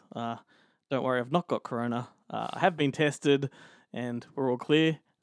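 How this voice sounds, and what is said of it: Hoarse voice. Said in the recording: “Here with a hoarse voice.”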